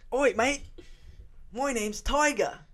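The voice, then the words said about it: Weak put-on Australian accent. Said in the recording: “that was my Australian accent right there. That was kind of shit. ... It sounds a bit Australian.”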